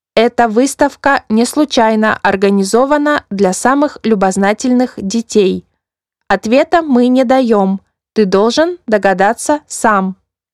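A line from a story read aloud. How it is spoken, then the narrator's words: Metallic voice. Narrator (Russian): тот металлическим голосом ответил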